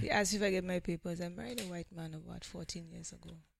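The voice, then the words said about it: St. Lucian accent. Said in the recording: “Love the accent. ... I do love the accent. ... how come you haven't lost your accent?”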